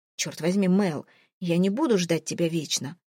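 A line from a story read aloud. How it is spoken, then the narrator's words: Cold. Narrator (Russian): Уже холодно заявляет Пикот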